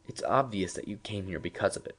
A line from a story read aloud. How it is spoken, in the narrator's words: Professor Thomas murmured